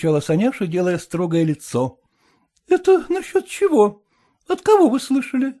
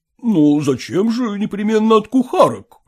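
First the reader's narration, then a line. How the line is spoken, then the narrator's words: Slightly offended tone. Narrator (Russian): несколько обиженным тоном произнес Ерехонский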